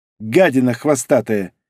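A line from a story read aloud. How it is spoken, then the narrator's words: Spat angrily. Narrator (Russian): зло выплюнул Сорей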